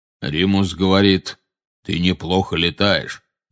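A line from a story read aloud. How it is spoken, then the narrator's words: Deep bass interjection. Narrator (Russian): вставил Кингсли бруствер густым басом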